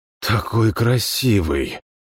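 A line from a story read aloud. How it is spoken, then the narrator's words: Breathless exhale. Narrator (Russian): Выдохнул я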